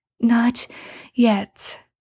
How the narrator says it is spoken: Sam pants

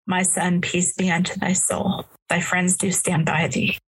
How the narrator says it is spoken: the voice of inspiration steals along and whispers

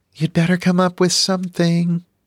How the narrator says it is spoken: Kayla said sweetly

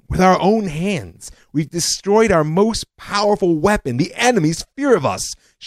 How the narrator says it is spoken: shouted General Ariel Sharon when he heard the decision

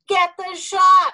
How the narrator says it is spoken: I yelled to Louie as I lost my footing and tumbled along

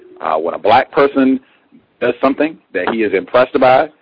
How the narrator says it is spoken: he says in a shocked voice

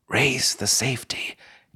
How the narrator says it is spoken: gasped Rhonda

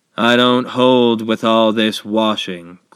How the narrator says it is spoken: grumbled Eeyore

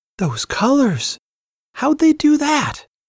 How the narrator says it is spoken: Chandra gasped

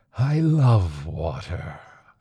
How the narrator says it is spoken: the monster said, wheezing and sighing

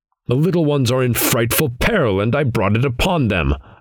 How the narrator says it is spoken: I cried

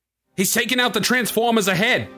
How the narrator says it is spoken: shouted the mechanic

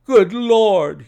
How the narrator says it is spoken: cried

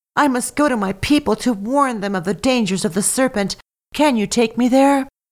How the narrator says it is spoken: begged

